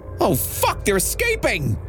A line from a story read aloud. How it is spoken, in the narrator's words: I yelled in the phone